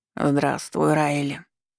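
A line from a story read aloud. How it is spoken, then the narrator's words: Hoarse croaking voice. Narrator (Russian): произнёс хрипловатым, каркающим голосом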